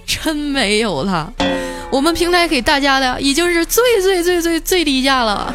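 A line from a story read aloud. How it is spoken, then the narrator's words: Almost crying. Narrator (Chinese): 几乎是带着哭腔跟我说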